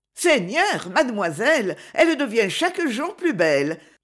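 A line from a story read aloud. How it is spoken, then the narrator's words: Exclaimed. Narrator (French): s'écria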